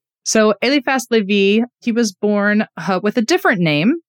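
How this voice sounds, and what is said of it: Usual voice. Nothing is said of it.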